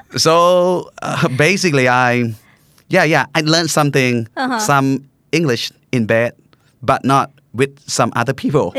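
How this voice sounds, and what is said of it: Mixed American and British accent. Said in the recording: “my accent is kind of funny, because it mixed up with Americans and the British”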